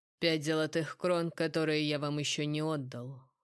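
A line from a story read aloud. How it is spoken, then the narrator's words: Cold retort. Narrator (Russian): холодно парировал Элиан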